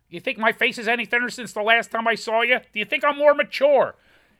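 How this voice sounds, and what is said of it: Imitates another person's voice. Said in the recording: “It's also good Ray Romano.”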